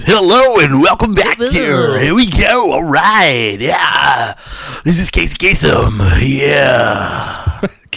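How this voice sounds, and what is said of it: Fake radio DJ voice. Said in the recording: “fake radio voice ... like a fucking retarded version of Wolfman Jack”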